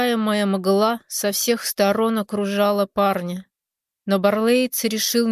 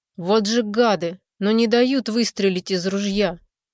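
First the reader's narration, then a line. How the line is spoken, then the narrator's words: Sighing. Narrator (Russian): вздохнул парень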